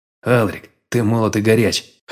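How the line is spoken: Snorting. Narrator (Russian): хмыкнул

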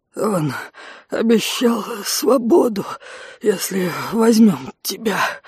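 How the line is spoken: Strained breathless wheeze. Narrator (Russian): прохрипел мужчина с каждым выдохом, выталкивая из горла слова

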